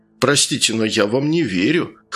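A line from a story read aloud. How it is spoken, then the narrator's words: Chuckling. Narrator (Russian): хохотнул подполковник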